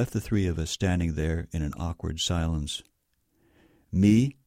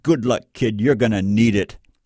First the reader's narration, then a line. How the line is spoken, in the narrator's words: He gave a consenting snort and said